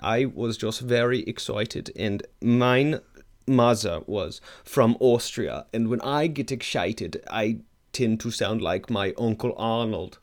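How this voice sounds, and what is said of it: Put-on German/Austrian accent. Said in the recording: “I love your accent ... you're kind of doing an Austrian thing ... this is my German accent.”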